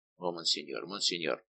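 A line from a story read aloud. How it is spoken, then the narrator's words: Muttered. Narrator (Russian): пробормотал Безмо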